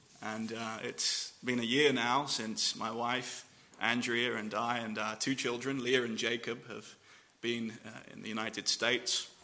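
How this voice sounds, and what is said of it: English accent. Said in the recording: “The strange accent is an English accent.”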